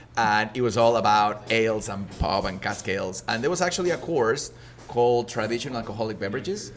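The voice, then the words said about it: Slight Mexican accent in English. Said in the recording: “you can hear a little bit, I'm not from an English-speaking country. I was born in Mexico”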